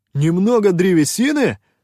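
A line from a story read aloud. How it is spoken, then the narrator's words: Indignant exclamation. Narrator (Russian): возмущенно воскликнул Шутай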